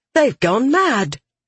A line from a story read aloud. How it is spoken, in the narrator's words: Red exclaimed